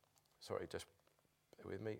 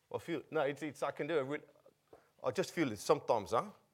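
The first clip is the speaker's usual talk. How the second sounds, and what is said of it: Put-on Afrikaans South African accent. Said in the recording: “am I allowed to do a South African accent? ... That's a really Afrikaans accent, isn't it? It's not really right.”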